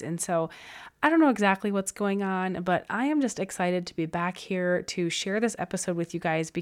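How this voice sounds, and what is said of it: Stuffy, crackly, hoarse voice. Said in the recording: “you can probably still hear it in my voice a little bit. I'm still a little bit stuffy at times. It comes and goes. I've got this crackly, hoarse voice that comes and goes”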